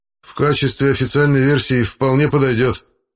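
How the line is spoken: Slightly less displeased reply. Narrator (Russian): чуть менее недовольным тоном ответил Рудковский

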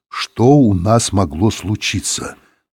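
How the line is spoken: Through clenched teeth. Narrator (Russian): сказал он сквозь зубы

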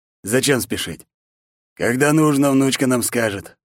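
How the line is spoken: Calm. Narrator (Russian): спокойно ответил Вастерон

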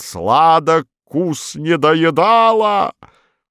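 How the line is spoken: Sudden tuneless yelling. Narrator (Russian): вдруг немузыкально заорал

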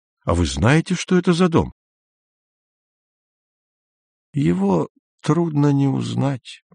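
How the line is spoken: Quiet old man. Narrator (Russian): тихо сказал старик

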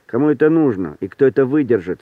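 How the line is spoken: Gloomy. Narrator (Russian): сказал Витька мрачно

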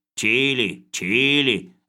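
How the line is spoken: Anxious muttering. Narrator (Russian): забормотал Хлебоводов, тревожно поглядывая на Лавра Федотовича

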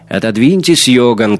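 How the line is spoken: Shouting. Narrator (Russian): крикнула она

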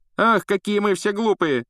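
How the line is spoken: Mocking exclamation. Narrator (Russian): насмешливо воскликнул Малфой

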